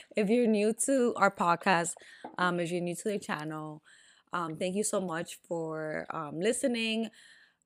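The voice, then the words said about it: Raspy voice. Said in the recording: “my voice sounds a little raspy.”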